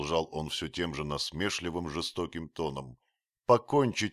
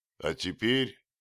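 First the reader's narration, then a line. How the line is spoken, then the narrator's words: Shout. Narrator (Russian): крикнул уродливый вождь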